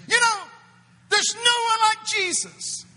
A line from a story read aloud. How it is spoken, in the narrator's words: I screamed